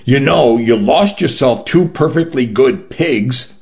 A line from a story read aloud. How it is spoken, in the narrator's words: she informed me through gritted teeth